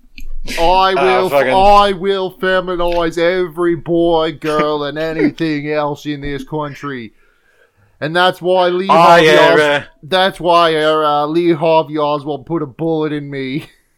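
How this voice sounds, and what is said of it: Kennedy impression. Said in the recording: “to do a Kennedy voice”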